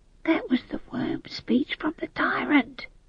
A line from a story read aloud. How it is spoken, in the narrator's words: whispered Howell